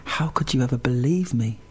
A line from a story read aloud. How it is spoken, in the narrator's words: she smiled and said softly